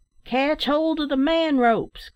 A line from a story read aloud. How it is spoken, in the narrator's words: cried the last-named worthy